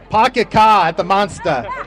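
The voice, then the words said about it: Put-on Boston accent. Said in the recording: “Was that a Boston accent? ... That was a Boston.”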